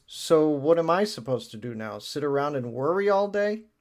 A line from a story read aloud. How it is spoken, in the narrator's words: Allura sighs, and she says